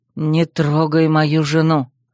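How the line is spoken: Chilling hiss. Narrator (Russian): Прошипел Земка таким тоном, что даже у меня спина похолодела

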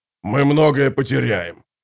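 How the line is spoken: Growl. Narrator (Russian): прорычал воевода

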